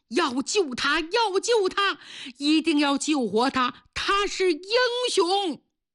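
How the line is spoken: Shouting. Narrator (Chinese): 警察们冲着医生喊

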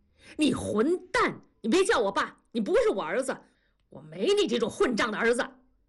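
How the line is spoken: Furious roar. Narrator (Chinese): 同志怒吼一声

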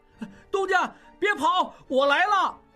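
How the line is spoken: Loud shout. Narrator (Chinese): 小栓……看见应季大叫

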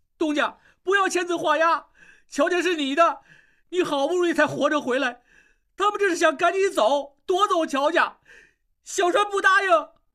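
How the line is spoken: Loud, tearful. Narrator (Chinese): 小栓眼泪一下子就流出来，大声说

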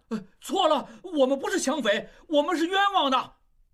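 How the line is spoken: Shouting. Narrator (Chinese): 旺实大叫

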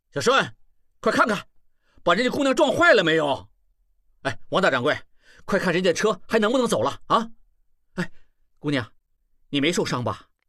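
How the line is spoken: Loud shout. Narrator (Chinese): 他大声喊起来

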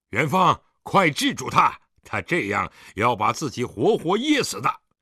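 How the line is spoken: Stern shout. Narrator (Chinese): 狄仁杰面沉似水，厉声喝道

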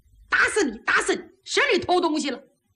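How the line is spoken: Shouting. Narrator (Chinese): 可听里边喊

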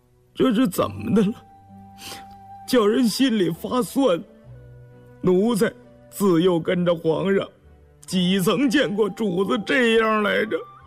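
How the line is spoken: Choked, emotional voice. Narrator (Chinese): 动了情，眼圈一红，哽咽着嗓子说道

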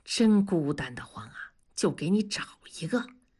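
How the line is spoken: Low hushed voice. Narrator (Chinese): 大庄压低声音说

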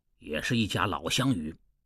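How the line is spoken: Low voice. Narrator (Chinese): 侯元低声道

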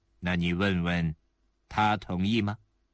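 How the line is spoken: Cold. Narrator (Chinese): 希尔埃里回头看看埃尔肯，冷冷地说

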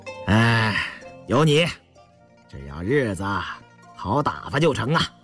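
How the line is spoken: Laughing. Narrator (Chinese): 胤祥笑了

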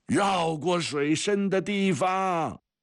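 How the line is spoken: Father's distant shout. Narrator (Chinese): 从什么地方传来父亲的喊声

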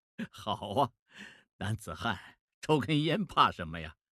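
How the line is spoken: Laughing. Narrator (Chinese): 孟梅笑了，说

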